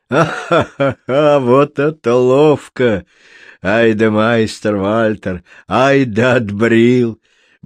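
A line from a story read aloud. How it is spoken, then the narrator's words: Hearty guffawing. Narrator (Russian): Бочар хохотал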